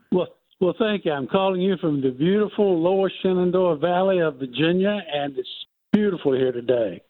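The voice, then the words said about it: Speaks with a noticeable accent. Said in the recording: “I love your accent, sir.”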